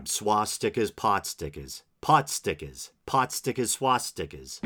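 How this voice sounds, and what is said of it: Exaggerated New England accent. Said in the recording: “with my New England accent, if I really kind of dial it up”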